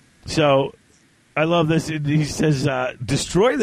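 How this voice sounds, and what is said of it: Usual voice. Nothing is said of it.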